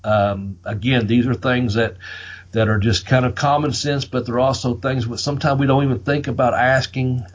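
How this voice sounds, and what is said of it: Southern American accent. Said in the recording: “There's my southern accent”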